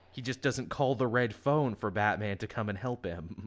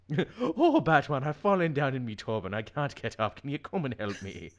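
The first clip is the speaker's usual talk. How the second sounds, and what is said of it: Exaggerated stereotypical Irish accent. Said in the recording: “my offensive Irish guy accent ... it wasn't like a drunk Irish accent ... more of a "come get your lucky charms" version ... It wasn't a Boston Irish.”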